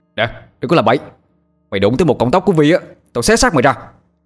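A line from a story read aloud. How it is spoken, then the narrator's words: Furious shout. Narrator (Vietnamese): Tôi chửi thề hết một tràng rồi hét lên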